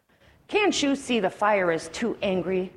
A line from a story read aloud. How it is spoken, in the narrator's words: bellowed the elephant